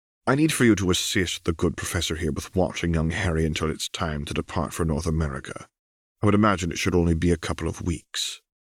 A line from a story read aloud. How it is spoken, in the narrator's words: Dumbledore chimed in gently